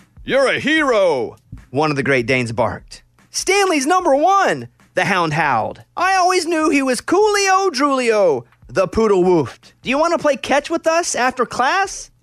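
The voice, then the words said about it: Different voices for dog characters. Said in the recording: “this is me doing the voices ... So those are the different dogs.”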